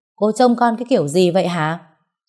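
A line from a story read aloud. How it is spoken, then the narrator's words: Loud angry yell. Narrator (Vietnamese): Người lái xe quát lớn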